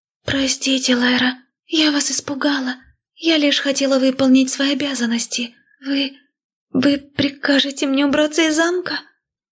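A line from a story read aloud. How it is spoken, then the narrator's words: Sad near-whisper, maid. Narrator (Russian): Опечаленно почти прошептала зелененькая служанка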